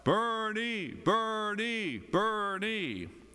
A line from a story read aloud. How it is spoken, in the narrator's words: Trump supporters who shout